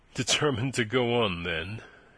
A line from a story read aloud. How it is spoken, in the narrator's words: he said dryly